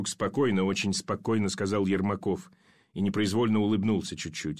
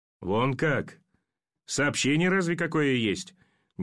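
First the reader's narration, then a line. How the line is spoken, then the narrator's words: Incredulous chuckle. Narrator (Russian): Недоверчиво хохотнул пулеметчик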